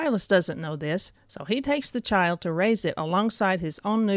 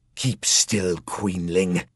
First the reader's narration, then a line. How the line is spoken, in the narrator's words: sneered the assassin